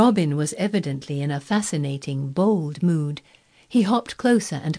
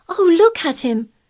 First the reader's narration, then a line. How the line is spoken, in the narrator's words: exclaimed Mary